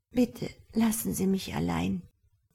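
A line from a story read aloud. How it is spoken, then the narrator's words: Flinching murmur. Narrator (German): murmelte sie und zuckte zusammen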